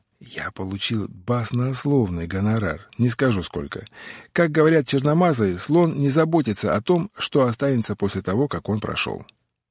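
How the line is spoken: Whisper in the ear. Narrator (Russian): прошептал Отто на ухо

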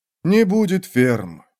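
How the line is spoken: Modest, gentle objection. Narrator (Russian): возразил последний, как всегда, скромно и мягко

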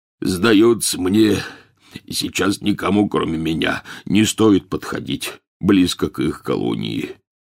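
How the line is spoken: Concluding. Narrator (Russian): закончил Хагрид

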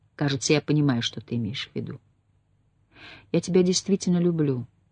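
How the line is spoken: Soft. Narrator (Russian): Он мягко проговорил

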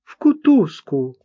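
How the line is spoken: Sharp cry. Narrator (Russian): вскрикнула Марта

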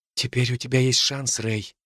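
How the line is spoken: Whisper. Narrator (Russian): прошептала она

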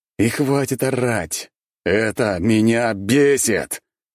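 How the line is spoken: Roar. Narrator (Russian): Я взревел

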